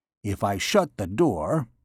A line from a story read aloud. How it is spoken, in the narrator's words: muttered